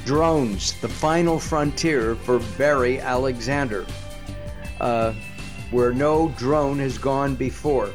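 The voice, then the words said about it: Big booming announcer voice. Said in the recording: “put on my big announcer voice, something I really don't have”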